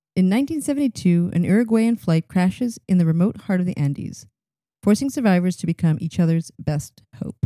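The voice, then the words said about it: Serious, solemn reading voice. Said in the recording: “I even changed into my serious voice when I read that.”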